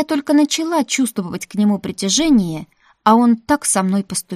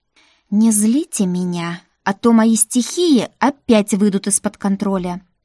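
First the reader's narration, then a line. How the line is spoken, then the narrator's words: Hissing. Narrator (Russian): зашипела я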